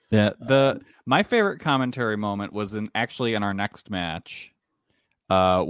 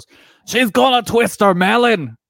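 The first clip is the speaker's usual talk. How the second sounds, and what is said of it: Good imitation of Stuart Fulton's accent. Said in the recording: “that was a good accent.”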